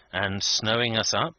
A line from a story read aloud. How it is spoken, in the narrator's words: asked Vendale anxiously